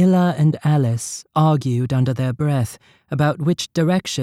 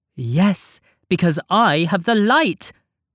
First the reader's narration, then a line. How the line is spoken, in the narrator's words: snapped Alice, loudly, too loudly